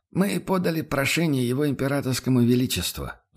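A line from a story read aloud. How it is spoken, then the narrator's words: Sighing. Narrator (Russian): вздохнул Радин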